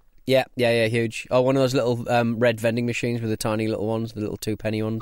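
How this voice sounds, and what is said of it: Guttural northeastern English accent. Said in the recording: “my fucking guttural northeastern accent”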